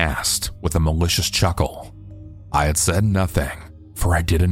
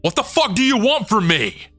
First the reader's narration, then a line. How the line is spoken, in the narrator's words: I yelled